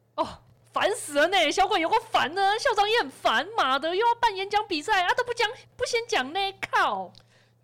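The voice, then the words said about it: Loud, angry venting. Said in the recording (Chinese): “你小声一点呢”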